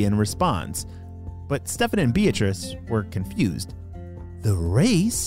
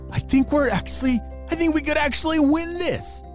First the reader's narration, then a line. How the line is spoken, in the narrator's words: Stefan shouted excitedly